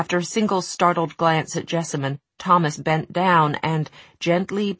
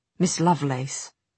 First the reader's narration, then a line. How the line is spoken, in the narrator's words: he said in a low voice